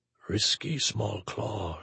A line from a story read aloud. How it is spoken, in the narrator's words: Shiral murmured